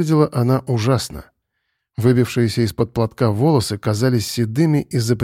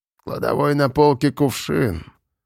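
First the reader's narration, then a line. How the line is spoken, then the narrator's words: Barely audible, habitually grumpy. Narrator (Russian): сказала она едва слышным, но привычно сварливым голосом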